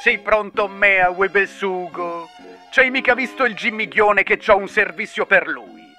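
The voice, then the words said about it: Poor imitation of Gabibbo puppet voice. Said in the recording (Italian): “la peggiore imitazione del Gabibbo che abbia mai sentito”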